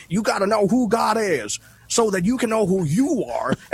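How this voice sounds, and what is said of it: Southern preacher accent. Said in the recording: “my pastors preach in a Southern accent. They sound like me until they get on the pulpit”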